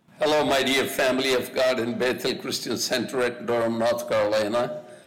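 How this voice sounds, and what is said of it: Foreign accent, speaker from India. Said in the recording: “I love hearing someone talk about the Lord in an accent”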